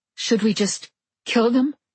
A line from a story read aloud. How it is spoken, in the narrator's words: the female asked, her voice shaking with stress, her accent